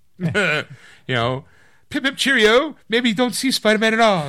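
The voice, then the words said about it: Put-on British accent. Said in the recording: “imagine that with a British accent”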